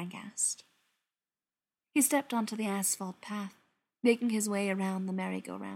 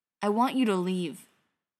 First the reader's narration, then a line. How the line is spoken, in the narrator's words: Brendan said